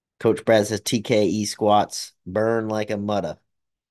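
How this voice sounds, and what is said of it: Put-on Boston accent. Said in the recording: “Boston accent.”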